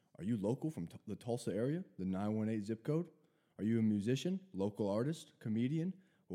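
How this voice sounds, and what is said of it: Cheesy deep radio announcer voice. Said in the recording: “that barfy radio voice ... I'm going to get deeper”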